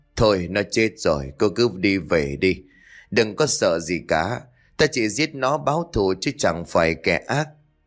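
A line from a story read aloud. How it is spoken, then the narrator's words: Sigh. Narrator (Vietnamese): Sơ thở dài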